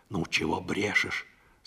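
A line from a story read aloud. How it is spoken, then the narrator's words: Displeased whisper. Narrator (Russian): сказала Парашка недовольным шепотом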